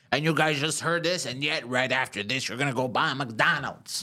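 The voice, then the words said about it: Imitates another person's voice. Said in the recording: “That's actually not a bad impression.”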